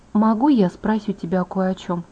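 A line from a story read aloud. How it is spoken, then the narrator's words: Plain. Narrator (Russian): сказала я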